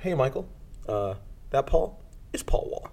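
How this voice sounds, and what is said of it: Imitates another person's voice. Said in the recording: “That's a good Austin impression. ... It's pretty good.”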